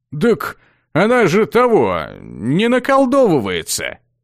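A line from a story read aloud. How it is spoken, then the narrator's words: Young man, uncertain. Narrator (Russian): Неуверенно припомнил парень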